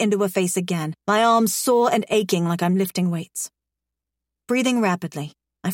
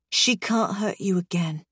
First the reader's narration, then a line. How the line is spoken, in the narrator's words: I whisper, before choking on a sob